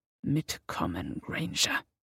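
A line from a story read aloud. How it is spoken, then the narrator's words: Hissing. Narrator (German): zischte Severus Hermine zu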